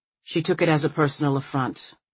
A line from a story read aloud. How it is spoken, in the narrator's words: Marie says evenly